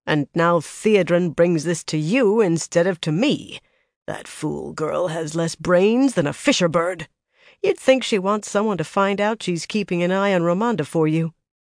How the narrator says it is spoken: she growled

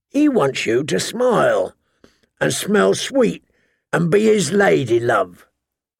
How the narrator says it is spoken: the hound rasped

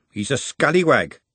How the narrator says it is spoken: she said firmly

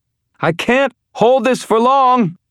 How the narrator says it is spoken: Elaine shouted

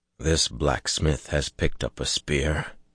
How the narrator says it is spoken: Perrin murmured

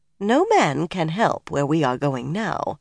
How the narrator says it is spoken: Varen said dryly

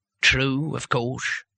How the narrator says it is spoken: he muttered

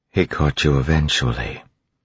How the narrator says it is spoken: Vin said quietly

